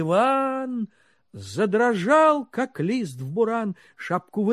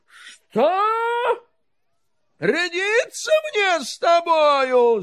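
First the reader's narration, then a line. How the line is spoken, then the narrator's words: Shouted. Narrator (Russian): закричал он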